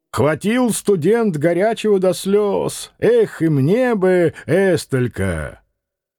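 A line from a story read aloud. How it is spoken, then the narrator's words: Cheerful shout. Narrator (Russian): Кто-то мохнатый весело крикнул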